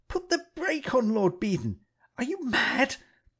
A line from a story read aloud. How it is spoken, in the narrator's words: I cried